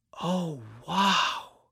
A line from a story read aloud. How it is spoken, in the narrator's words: whispered Jude